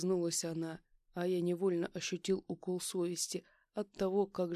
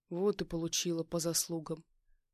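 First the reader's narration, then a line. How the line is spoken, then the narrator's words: Softened grumble. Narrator (Russian): Буркнул я, но уже гораздо мягче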